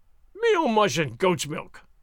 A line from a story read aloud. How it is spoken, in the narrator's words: snorted Sergeant Gonzales in huge disgust